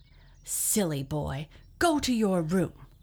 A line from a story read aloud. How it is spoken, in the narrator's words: she cried